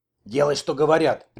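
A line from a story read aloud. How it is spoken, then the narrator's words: Old woman's sharp shout. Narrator (Russian): прикрикнула старуха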